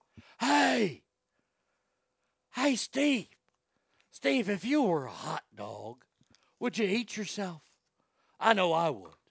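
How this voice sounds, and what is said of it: Harry Caray impression. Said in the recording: “Harry Carey? ... I know that's a popular Will Ferrell thing ... But that's a question that Harry would have asked.”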